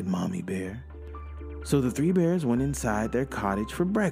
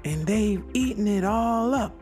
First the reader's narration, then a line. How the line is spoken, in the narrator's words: squeaked Baby Bear